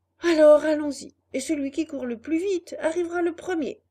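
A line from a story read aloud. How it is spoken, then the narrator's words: Shouted. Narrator (French): cria Pinocchio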